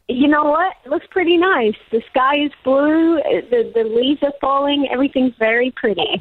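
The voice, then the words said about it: Australian accent. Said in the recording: “I'm just trying to listen to your accent just to work out how it's all going, how it's all changing. ... oh, you're still Australian.”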